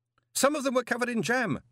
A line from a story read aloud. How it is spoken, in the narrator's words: Moist shouted